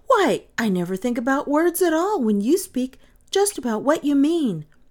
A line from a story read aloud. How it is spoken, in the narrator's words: Kay said happily